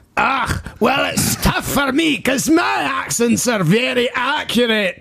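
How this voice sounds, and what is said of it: Put-on Scottish accent. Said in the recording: “That is quite accurate... that is an absolutely spookily accurate Scottish accent... insulted by ... accent”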